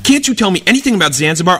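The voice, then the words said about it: Yelling teacher's voice. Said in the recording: “he's yelling at me, "Zanzibar, Zanzibar."”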